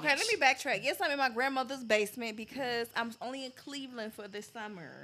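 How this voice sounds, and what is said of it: Southern accent. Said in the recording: “y'all hear my accent coming back ... She was a southern sweetheart.”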